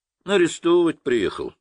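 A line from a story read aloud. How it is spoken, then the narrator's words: Calm. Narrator (Russian): спокойно сказал Хмелев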